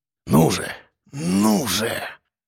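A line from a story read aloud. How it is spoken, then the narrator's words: Impatient groan. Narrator (Russian): Простонал ворон, не выдержав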